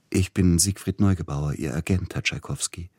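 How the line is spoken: Gentle male voice. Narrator (German): sagte mit sanfter Stimme der Mann an der Türe

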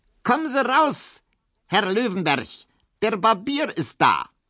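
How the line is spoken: Roar from inside. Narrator (German): drinnen brüllte etwas

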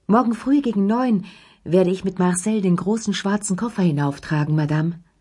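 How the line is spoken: Called down hallway. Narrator (German): rief

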